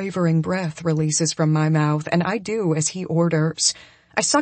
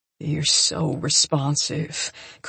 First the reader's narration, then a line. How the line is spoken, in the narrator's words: Coop murmurs, almost to himself